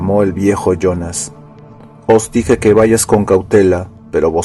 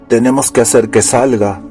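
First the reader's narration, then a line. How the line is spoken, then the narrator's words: Growled. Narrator (Spanish): gruñó Jack Solomon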